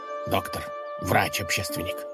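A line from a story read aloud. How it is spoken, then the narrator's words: Grumbling. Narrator (Russian): проворчал правитель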